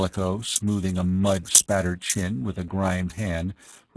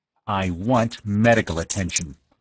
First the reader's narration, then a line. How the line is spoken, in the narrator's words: snapped the other, cradling his seared hand